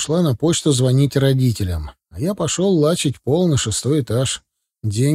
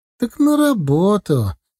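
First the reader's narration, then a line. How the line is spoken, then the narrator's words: Snide. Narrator (Russian): ехидно скривилась Диана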